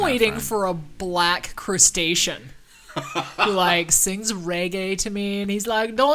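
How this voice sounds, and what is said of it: Usual voice. Nothing is said of it.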